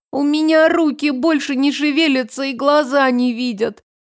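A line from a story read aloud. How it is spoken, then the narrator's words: Moaning. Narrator (Russian): простонала Ксю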